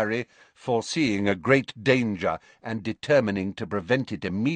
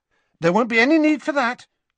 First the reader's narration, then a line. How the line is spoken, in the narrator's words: said Harry hastily